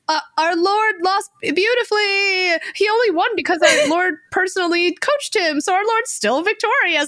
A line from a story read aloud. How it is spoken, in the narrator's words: even though Hwa-chung lost, the ghosts yell out